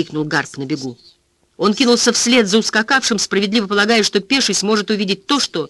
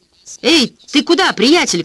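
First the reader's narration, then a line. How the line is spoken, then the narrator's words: Shouted. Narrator (Russian): крикнул полицейский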